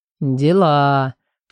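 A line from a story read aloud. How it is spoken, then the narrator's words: Drawn-out drawl. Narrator (Russian): протянул Алико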